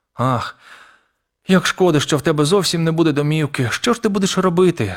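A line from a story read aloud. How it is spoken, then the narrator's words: Sobbing. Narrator (Ukrainian): схлипнула Мейбл, і по її щоках покотилися сльози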